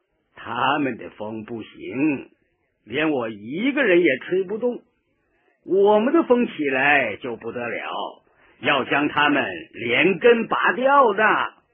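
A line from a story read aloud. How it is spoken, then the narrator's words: Smiling. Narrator (Chinese): 毛泽东……笑了笑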